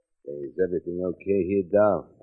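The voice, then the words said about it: Imitates another person's voice. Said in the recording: “Who are you imitating now? ... Joe, the owner of the barn.”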